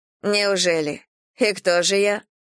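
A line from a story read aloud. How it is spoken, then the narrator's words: Scoffing snort. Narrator (Russian): фыркнула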